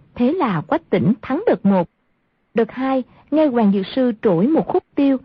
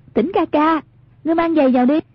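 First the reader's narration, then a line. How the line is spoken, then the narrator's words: Amused call. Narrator (Vietnamese): Hoàng Dung không khỏi thấy buồn cười, bèn kêu lên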